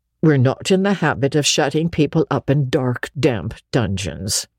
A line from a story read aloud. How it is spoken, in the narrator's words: said Marilla dryly